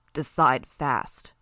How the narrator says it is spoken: growled

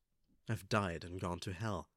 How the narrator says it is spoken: Battery muttered

